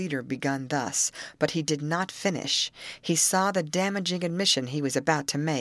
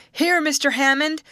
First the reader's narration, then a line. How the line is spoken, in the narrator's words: a shout from a distant shack